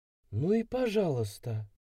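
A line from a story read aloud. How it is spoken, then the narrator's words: Hurt whisper. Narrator (Russian): прошептала обиженно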